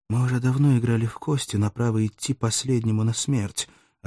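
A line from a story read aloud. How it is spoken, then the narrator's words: Quiet reply. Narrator (Russian): ответил также тихо Арториджи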